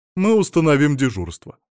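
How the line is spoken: Stern. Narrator (Russian): строго сказала фрау Роза

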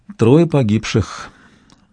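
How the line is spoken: Lifeless voice. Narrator (Russian): сказала Тем безжизненным голосом

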